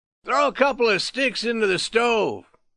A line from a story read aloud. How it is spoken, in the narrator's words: commanded, speaking loudly